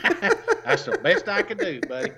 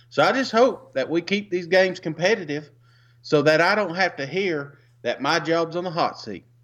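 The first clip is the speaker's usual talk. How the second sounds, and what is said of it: Bad put-on Alabama accent. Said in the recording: “Alabama accent is god awful.”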